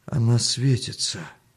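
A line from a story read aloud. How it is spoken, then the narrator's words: Weak voice. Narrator (Russian): слабым голосом сказал Артем Мельнику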